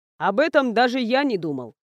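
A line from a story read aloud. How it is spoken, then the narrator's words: Good-natured snort. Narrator (Russian): хмыкнул Эйнар, но в его голосе не было злой насмешки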